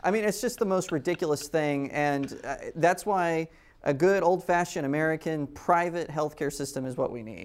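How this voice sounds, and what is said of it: Jewish New York accent. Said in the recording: “that Jewish New York accent”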